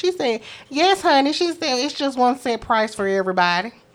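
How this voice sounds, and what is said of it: Imitated Southern country accent. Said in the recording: “Because that's how she sounds. ... Country accent like that.”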